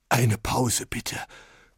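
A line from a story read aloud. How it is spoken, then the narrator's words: Panting. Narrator (German): keuchte Oberlehrer Greg schließlich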